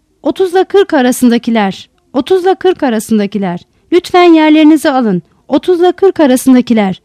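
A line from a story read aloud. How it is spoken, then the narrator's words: Calling out loudly. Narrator (Turkish): diye haykırıyordu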